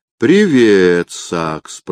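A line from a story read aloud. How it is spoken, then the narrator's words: Drawling. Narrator (Russian): протянул он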